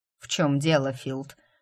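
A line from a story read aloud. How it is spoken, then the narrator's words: Barked. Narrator (Russian): рявкнул Грег на парня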